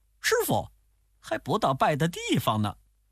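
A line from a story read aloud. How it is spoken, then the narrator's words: Laughing. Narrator (Chinese): 悟空笑着说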